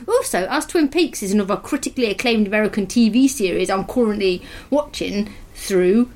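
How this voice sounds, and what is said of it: Put-on East Midlands English accent. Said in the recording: “it's more of a kind of Nottingham Derby sort of accent ... I was going to do East Midlands rather than West Midlands ... That sounded like it was Southern.”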